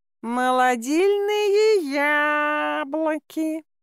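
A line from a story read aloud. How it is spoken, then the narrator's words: Drawn-out whine. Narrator (Russian): протяжно заскулил кот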